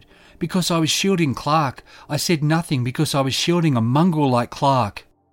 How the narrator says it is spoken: Trifine shouted

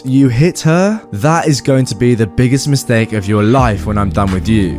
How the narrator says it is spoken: I say in a threatening voice

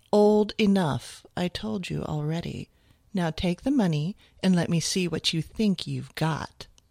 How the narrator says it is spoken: Her voice was silky and sophisticated as she said

